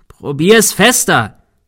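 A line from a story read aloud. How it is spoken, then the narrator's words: Shouting. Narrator (German): schrie Thomas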